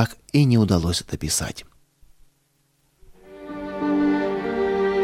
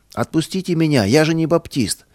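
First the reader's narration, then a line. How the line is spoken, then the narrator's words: Young man shouting. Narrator (Russian): Один задержанный милицией юноша кричал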